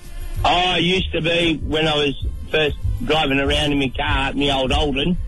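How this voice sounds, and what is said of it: Broad Australian bogan accent. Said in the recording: “his accent. It's a very, very particular accent known for Newcastle, I think. ... bogan accents”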